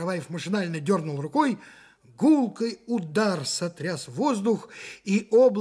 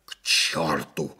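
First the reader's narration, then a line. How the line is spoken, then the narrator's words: Wheezing. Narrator (Russian): захрипел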